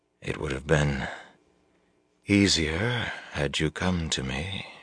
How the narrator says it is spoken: she murmured

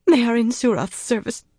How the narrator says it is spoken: the woman whimpered

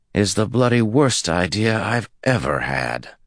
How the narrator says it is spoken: groaned

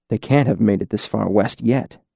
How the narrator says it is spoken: he said softly

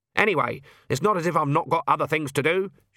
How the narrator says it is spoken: said

